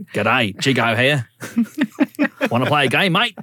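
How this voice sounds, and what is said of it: Put-on Australian accent. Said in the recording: “The Australian remake. ... The accent, I feel like it's getting worse.”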